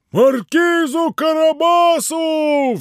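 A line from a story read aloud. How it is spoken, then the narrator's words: Mowers shouting in unison. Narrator (Russian): все закричали разом косари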